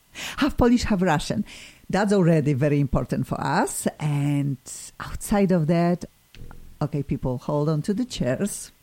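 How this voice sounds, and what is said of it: Polish-accented English. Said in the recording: “similarly to my accent, but hopefully people already know that my Polish accent will never go away.”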